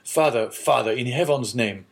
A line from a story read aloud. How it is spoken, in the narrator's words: exclaimed the young man